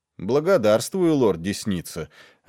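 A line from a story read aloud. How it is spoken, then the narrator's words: Plain. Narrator (Russian): ответил Слинт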